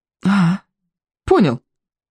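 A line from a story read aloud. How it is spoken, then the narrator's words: Breathed out. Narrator (Russian): выдохнул Икинг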